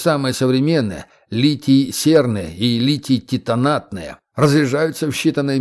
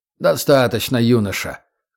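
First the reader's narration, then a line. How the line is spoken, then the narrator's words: Forced dry tone. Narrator (Russian): старался говорить сухо, хотя ему не хотелось прерывать паренька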